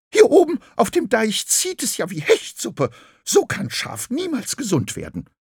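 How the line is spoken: Sudden shriek. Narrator (German): Plötzlich kreischte Graugans

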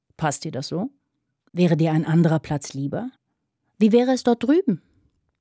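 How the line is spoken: Asked very calmly. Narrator (German): fragte Fanny ganz ruhig

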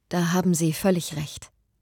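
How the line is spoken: Calm reply. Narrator (German): erwiderte Eleanor ruhig

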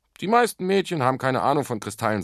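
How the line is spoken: Plain. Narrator (German): sagte er

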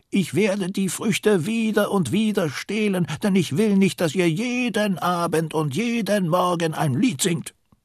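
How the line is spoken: Monkey calling. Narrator (German): der Affe ruft

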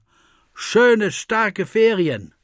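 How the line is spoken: Cupped-hands shout. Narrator (German): Der dicke Paul formt einen Schalltrichter und ruft zum Auto hinüber

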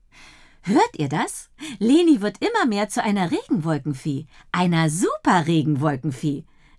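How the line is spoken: Happy giggling speech. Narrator (German): sagt Dottie und kichert froh

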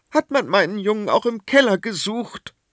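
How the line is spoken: Trembling voice question. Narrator (German): wollte Königin Seraphina mit bebender Stimme wissen

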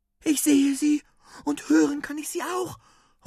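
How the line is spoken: Excited call. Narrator (German): ruft Juri aufgeregt

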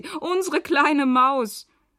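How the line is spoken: Laughing. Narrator (German): lachen sie

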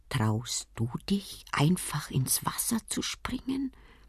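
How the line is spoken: Quiet speech. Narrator (German): Der kleine Kaiser sagt leise zu seinem Freund Palu

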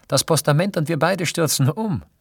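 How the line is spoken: Calling out. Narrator (German): rief Fanny

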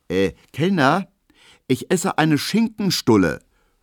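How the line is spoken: Quick calling out. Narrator (German): ruft Emil Kubinke schnell, um sogleich das Niveau der Zeche zu bestimmen

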